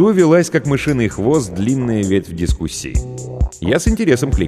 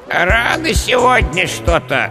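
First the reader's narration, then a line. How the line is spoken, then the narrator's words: Creaky, displeased old voice. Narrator (Russian): недовольно проскрипел скелет с редкими седыми прядями по черепу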